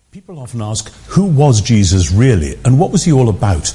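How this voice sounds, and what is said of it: British accent. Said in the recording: “that British accent ... that is a little bit different”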